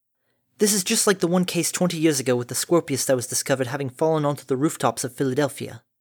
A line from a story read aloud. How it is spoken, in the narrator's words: Redgale muttered